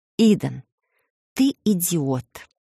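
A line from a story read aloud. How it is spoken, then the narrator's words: Quiet emotional hiss. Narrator (Russian): тихо шикнула я, не сумев сдержать эмоции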